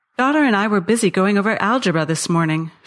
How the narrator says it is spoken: she said

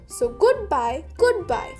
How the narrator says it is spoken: they cried

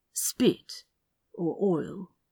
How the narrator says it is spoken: Aziraphale replied softly

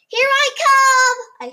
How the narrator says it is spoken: I shouted

